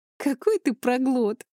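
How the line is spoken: Laughing. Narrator (Russian): рассмеялась я

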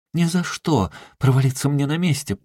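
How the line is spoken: Ardent exclamation. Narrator (Russian): пылко воскликнула она

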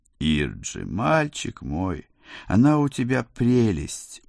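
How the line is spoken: Tender, touched sigh. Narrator (Russian): умиленно вздохнула мама

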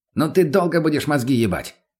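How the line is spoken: Snapping bark. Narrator (Russian): не выдержал и рявкнул мутный

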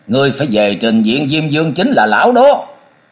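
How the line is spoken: Sudden roar. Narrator (Vietnamese): chàng bỗng nhiên gầm lên

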